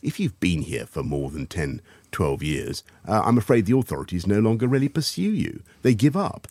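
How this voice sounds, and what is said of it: Posh English accent. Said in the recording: “speaks in a really posh accent”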